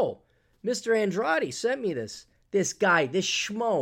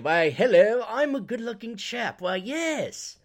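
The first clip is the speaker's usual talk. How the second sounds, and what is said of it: Put-on British accent. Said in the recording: “this perfectly blue-eyed guy with a British accent. You schmoes with your British accents.”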